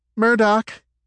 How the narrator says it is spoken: she shouted back

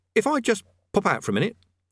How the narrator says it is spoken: he said desperately

